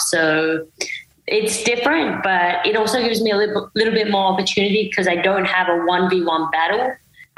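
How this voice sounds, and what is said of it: Mixed American Australian accent. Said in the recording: “your accent, it's a bit of everywhere ... a mix ... a bit of Australian as well”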